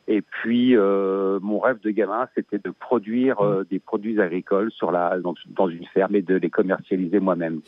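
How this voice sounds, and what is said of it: Slight Belgian French accent. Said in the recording (French): “j'ai un petit accent, mais je suis bien en Belgique”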